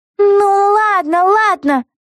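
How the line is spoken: Through gritted teeth. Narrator (Russian): сквозь зубы проговорила Вега

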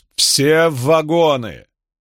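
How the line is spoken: Conductor calling loudly. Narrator (Russian): Проводник громко взывал

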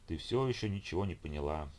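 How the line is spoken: Sighing. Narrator (Russian): Женя вздохнул

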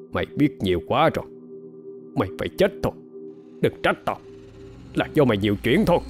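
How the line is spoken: Menacing, clipped. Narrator (Vietnamese): Người kia gằn giọng nói

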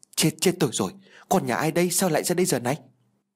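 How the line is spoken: Frightened stammering. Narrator (Vietnamese): Tái mặt vì đập trúng thằng bé, sợ nó bị chấn thương, Thành lắp bắp

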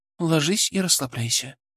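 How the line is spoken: Soft command. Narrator (Russian): скомандовала она мягко

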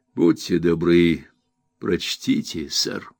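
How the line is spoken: Quiet voice. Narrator (Russian): тихим голосом произнес

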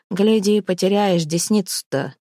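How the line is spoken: Grumbling. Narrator (Russian): проворчал Вятка

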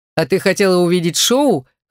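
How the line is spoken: Chuckling. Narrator (Russian): хохотнул Смерч

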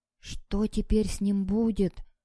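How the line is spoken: Whispered question. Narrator (Russian): шепотом спросил только Сажин

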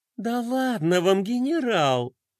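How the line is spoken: Honeyed coo. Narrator (Russian): Медовым голосом проворковала Пинки

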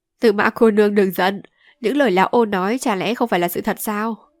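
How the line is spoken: Loud laughing. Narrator (Vietnamese): Nhị Hồ ha hả cười to

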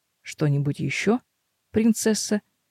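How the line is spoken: Muttered. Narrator (Russian): Бормочу я

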